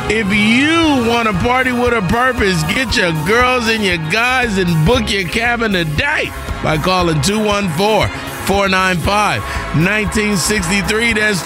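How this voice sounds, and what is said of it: Smooth radio announcer voice. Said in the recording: “That announcer voice is blessing me.”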